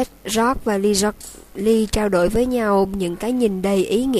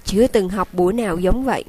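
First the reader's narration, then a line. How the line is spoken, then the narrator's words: Plain. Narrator (Vietnamese): Fred nói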